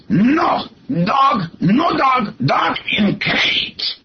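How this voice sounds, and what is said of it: Imitated thick Greek accent. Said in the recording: “in this very thick Greek accent.”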